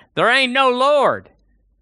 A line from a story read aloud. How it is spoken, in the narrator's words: would get so angry at her proclamations, he would shout